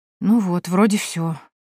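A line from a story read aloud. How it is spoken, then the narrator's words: Muttered. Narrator (Russian): пробормотала я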